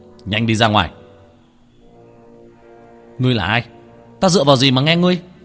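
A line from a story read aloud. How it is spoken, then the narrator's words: Shouted. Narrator (Vietnamese): Tiểu Thất quát lên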